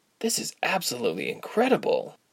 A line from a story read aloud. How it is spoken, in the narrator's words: Ilse breathed